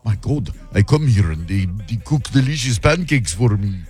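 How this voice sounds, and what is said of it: Weird Eastern European accent. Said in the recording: “that was a weird accent. ... It's like Eastern Europe somewhere.”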